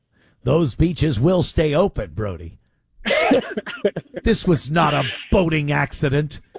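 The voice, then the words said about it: Impression of the Mayor of Amity. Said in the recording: “great Mayor of Amity impression”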